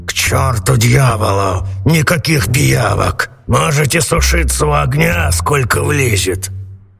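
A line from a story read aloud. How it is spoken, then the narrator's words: Grumbling. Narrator (Russian): Сеньор Карабас-Барабас проворчал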